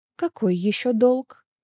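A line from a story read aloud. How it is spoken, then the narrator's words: Surprisingly calm question. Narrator (Russian): На удивление спокойным голосом спросила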